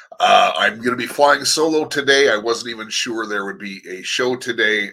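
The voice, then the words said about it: Rough voice from a cold. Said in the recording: “my voice sounds a little bit rough, it's because I'm fighting through a cold”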